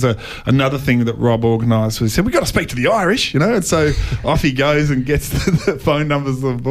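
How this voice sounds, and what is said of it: Usual voice. Nothing is said of it.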